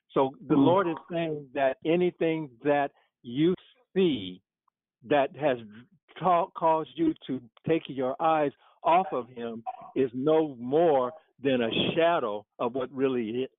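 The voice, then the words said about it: Hoarse, strained, failing voice. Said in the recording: “I'm losing my voice here.”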